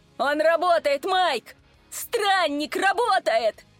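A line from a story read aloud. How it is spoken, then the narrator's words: Joyful shout. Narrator (Russian): Радостно закричал Рэй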